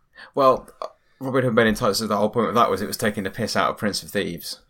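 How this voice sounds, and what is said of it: British accent. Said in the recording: “I have a British accent.”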